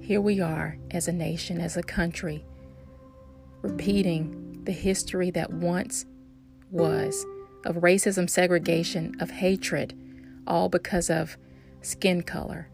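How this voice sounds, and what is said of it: Distinguished voice with Southern accent. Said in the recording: “My voice is distinguished. My accent, southern.”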